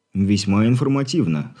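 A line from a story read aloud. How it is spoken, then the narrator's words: Snorting. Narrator (Russian): хмыкнул Игорь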